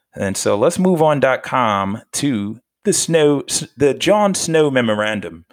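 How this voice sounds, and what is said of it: Put-on English accent. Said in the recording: “That was my best English voice impersonation.”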